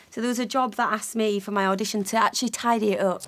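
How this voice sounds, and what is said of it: Noticeable regional English accent. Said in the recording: “talking about your accent, you see, I think it's charming”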